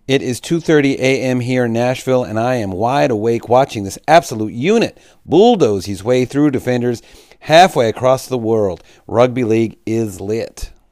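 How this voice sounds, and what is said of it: Poor attempt at Nashville accent. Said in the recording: “I know Nashville actually has a much better accent than that... That's just the best you're going to get from me”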